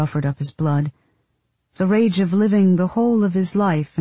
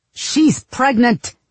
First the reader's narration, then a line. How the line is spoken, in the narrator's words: my husband shouted